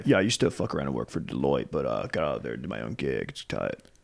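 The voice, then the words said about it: Generic frat-guy character voice. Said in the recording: “Should I do an impression of each one? ... every impression is going to sound the exact same. It's all just frat Dave.”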